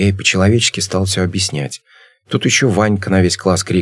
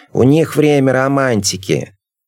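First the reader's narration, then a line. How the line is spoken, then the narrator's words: Teacher blurting out. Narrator (Russian): учительница сразу нам выдала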